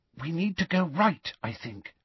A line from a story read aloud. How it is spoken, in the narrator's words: whispered Hermione